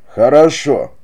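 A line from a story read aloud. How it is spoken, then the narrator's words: Feigned cheerful exclamation. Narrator (Russian): воскликнул он с показной веселостью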